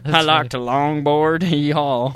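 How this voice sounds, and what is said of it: Exaggerated hick accent. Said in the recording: “in my hick voice”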